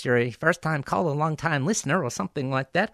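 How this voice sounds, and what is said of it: Bart Simpson impression. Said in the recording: “in my best Bart Simpson voice.”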